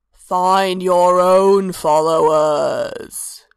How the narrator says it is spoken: Hermaeus's voice rumbled out from the stone around them

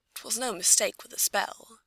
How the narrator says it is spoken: she mutters finally

